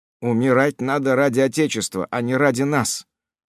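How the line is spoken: Plain. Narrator (Russian): ответил де Вадрель

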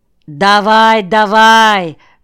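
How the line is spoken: Shouting. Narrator (Russian): кричал я ему

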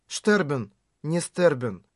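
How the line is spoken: Murmured. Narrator (Russian): пробормотала

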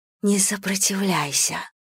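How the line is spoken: Woman's whisper. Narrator (Russian): шепнула одна из женщин

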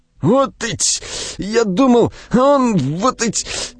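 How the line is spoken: Hoarse wheezing. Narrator (Russian): хрипел Буханыч

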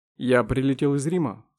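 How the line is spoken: Plain. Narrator (Russian): сказал Дронго

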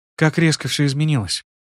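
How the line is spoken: Muffled whisper into shoulder. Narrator (Russian): прошептала Мира, уткнувшись в мое плечо

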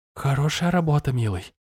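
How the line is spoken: Sudden whisper. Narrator (Russian): вдруг шепнула она

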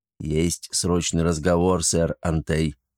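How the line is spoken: Quiet. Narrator (Russian): негромко сообщил достойный

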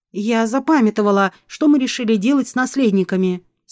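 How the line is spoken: Plain. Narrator (Russian): спросила ехидна

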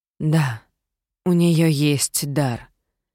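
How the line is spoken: Sighing, mystical manner. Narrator (Russian): вздохнула просветленная личность в своей отвратительной мистической манере

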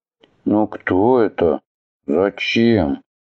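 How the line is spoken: Quiet reading aloud. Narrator (Russian): тихонько прочитал Атхи

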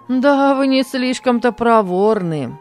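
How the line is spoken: Good-natured laughter. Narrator (Russian): добродушно засмеялся Кенан

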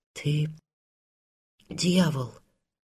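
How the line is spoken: Whispered. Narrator (Russian): прошептала Анна

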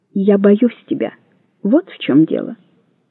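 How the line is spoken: Quiet. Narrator (Russian): тихо сказала

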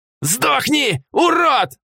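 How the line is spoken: Yelled. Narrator (Russian): заорал он

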